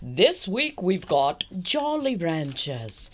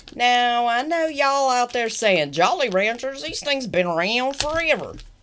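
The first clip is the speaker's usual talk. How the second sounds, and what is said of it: Put-on Southern Texas accent. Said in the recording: “I'm not sure why I went Southern. ... Jolly Ranchers suddenly took on, you know, a Texas accent there.”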